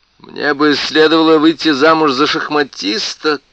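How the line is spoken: Shouting. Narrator (Russian): крикнула она

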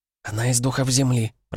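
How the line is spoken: Whisper. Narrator (Russian): прошептала Шпора у меня над духом

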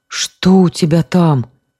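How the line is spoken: Hoarse frightened voice. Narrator (Russian): спросил он севшим, испуганным голосом

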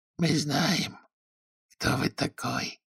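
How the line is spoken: Almost a whisper. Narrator (Russian): повторил он почти шепотом

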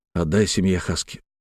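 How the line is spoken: Quiet. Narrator (Russian): тихо сказал

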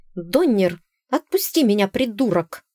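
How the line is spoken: Angry hiss. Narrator (Russian): зашипела на него Зефира

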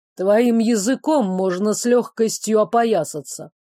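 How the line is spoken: Grumbling. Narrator (Russian): проворчал Сирейли

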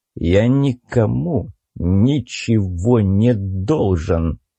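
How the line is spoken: Hissing. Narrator (Russian): прошипел я

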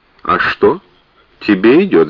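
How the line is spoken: Cool remark. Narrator (Russian): заметила Бэби, холодно разглядывая

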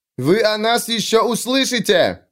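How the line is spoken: Shout while being dragged. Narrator (Russian): выкрикнул Сульфур, пока его тащили через толпу

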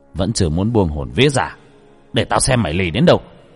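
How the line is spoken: Stern gritted growl. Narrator (Vietnamese): ông gằn giọng

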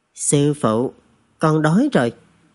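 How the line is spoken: Lowered voice. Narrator (Vietnamese): hạ giọng

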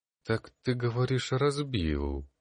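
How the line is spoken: Strange voice. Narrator (Russian): Странным голосом произнес Калистратис

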